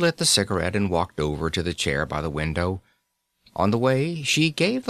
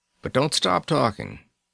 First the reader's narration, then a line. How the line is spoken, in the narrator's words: I rumbled